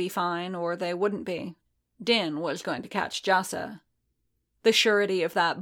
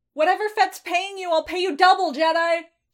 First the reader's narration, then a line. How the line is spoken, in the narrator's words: Jassa screamed